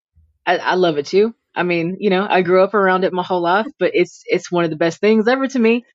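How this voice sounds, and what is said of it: Mild mixed Cajun accent. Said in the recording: “my accent is not as strong as most people's. Mine's a little bit of a mixture of everything”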